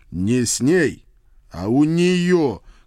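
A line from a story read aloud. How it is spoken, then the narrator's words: Embarrassed growl. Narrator (Russian): краснея до ушей прорычал я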